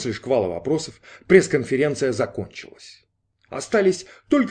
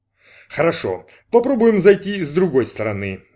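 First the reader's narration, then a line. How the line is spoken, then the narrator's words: Detective's sigh. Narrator (Russian): вздохнул сыщик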